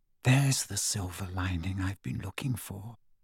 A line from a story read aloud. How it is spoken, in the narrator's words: whispered